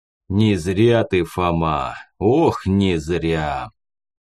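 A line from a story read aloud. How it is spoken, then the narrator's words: Deep bass voice. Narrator (Russian): пробасил собеседник баритона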